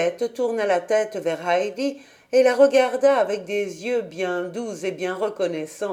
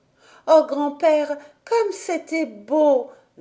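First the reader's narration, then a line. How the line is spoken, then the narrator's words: Exclaimed. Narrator (French): s'écria-t-elle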